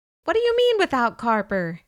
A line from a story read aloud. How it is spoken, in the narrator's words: I shouted